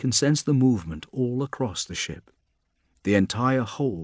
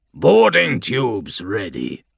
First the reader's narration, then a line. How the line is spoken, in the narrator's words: he rasps